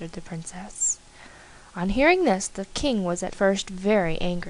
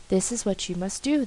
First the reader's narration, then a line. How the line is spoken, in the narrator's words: they said